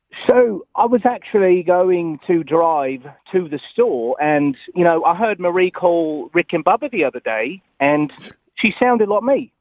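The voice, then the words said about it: Attempted British accent, Brooklyn showing through. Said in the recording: “I can try to do a British impression... There's a little bit there, but again, there's so much Brooklyn to get out of there. It's like it's a Brooklyn person.”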